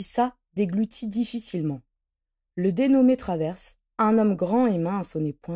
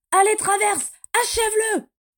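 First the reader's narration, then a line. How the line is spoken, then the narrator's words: Shouting while laughing. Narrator (French): cria Bellatrix en riant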